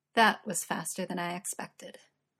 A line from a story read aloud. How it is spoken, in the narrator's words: Uther chuckles